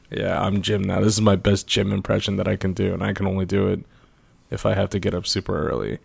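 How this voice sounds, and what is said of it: Tired, much deeper voice. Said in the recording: “I am tired. ... Your voice is a whole octave lower.”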